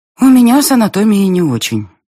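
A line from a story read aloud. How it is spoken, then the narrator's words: Sigh. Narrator (Russian): вздохнула я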